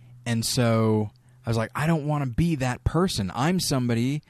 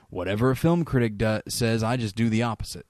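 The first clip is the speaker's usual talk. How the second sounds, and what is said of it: Put-on Southern accent. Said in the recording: “I don't know why I went into a Southern accent then.”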